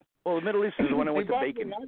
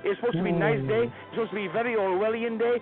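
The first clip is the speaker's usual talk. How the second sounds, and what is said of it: Put-on Russian drifting Middle Eastern accent. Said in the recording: “You kind of went from Russian to almost a Middle Eastern accent there”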